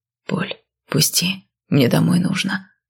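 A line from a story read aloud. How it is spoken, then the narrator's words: Whisper in ear. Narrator (Russian): шепот над ухом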